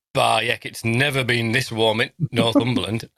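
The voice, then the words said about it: Put-on Northern Yorkshire accent. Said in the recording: “I've gone into full Northern ... I don't know why I was speaking Yorkshire accent.”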